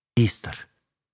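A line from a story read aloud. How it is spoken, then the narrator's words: Quiet reply. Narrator (Russian): тихо ответил я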